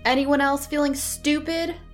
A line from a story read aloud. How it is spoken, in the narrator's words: shouted a guard